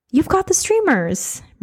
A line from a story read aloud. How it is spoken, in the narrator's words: Marie exclaimed